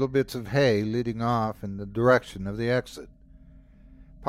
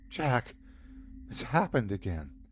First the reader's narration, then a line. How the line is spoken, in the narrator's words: she said quietly, her throat tight